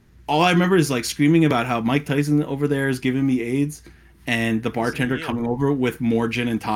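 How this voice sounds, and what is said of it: Usual voice. Nothing is said of it.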